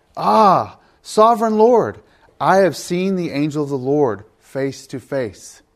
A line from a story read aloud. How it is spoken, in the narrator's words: Gideon realized that it was the angel of the Lord, he exclaimed